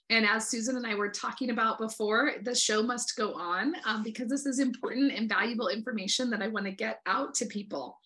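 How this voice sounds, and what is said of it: Slightly congested voice. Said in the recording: “I have a little bit of a cold ... pardon my voice”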